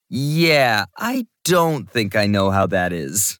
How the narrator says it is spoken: said with a laugh

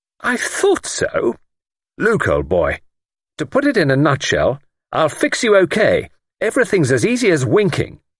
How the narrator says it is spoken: announced triumphantly

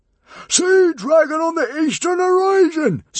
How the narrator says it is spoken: screamed Norbert from down below on the deck

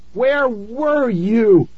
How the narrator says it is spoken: I screamed

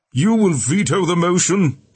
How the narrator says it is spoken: Tiberius asked as the roar continued

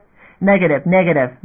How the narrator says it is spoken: Mazian snapped back

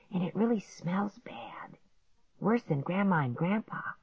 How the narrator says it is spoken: Clark whispered

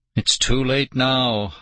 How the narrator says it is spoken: I groaned

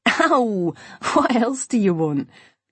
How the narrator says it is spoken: Imogen laughed

